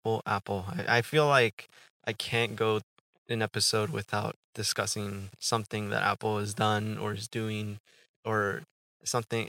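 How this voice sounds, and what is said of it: Slightly rough, dry voice. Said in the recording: “I forgot to drink water. That's probably my voice sounds a little rough.”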